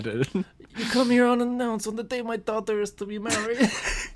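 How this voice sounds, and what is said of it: Bad Godfather character impression. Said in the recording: “your Godfather impression ... it was so bad”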